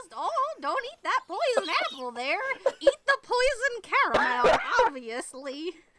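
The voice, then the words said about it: Old woman witch voice. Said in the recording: “old lady voice ... that's my witch voice to go along with the cackle”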